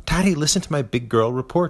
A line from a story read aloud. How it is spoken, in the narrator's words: she yells